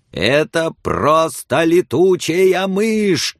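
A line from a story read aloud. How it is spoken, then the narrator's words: Furious shouting. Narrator (Russian): кричала надзирательница в бешенстве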